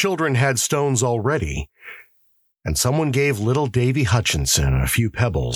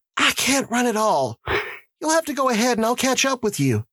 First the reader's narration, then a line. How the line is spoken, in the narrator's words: Dunbar she said, gasping for breath